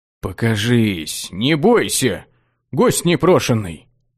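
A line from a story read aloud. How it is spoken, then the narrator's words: Confused muttering. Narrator (Russian): Пробормотал окончательно сбитый с толку маг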